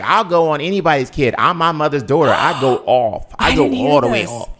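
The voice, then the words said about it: Imitates another person's voice. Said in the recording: “You sound just like her. That was a great impression.”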